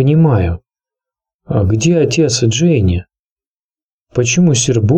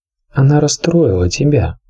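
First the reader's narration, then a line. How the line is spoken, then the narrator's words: Gentle. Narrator (Russian): мягко проговорила королева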